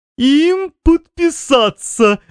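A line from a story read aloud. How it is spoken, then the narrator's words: Breathless from laughing. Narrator (Russian): выдохнул мистер ИИИ, обессиленный хохотом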